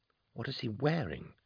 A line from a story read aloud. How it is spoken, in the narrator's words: Trice hissed to Revoke